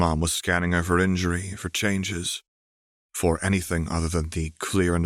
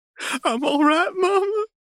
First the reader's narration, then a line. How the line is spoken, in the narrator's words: choked out